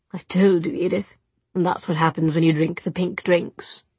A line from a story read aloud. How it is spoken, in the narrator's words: in a disapproving tone